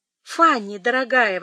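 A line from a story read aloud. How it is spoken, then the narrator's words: Exclaimed. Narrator (Russian): воскликнул Эдмунд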